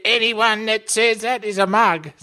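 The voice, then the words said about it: Imitates another person's voice. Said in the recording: “man of 1,000 impersonations ... So that was Bob Hawke ... That was terrible”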